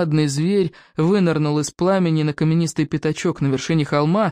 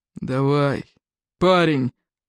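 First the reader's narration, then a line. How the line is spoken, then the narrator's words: Grumbled. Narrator (Russian): проворчал Плевака крикливый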